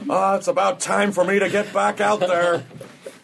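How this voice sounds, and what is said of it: Craig Kilborn impression. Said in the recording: “That was my Craig Kilborn impersonation.”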